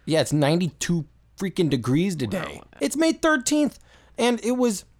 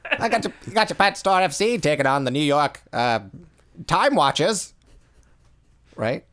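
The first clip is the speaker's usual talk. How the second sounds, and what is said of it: Put-on 1920s transatlantic accent. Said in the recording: “that transatlantic accent ... It was absolutely delivered like that ... I could do that voice all day”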